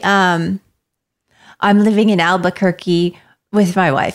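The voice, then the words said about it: Attempted American accent, original accent slipping. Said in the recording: “Talking like American ... Say that in like American ... Pretty good ... Nope, I heard it ... I heard the wife”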